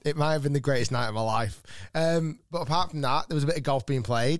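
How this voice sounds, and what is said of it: Slightly husky voice. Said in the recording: “my throat or my voice is a fraction husky”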